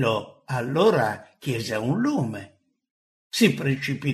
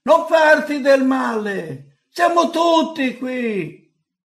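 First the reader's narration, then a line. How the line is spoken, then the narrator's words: Loud shout. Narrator (Italian): Paolo gridò forte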